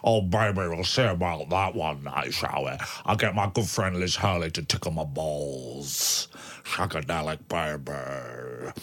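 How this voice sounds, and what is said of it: Austin Powers character impression. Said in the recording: “your faultless Austin Powers impression”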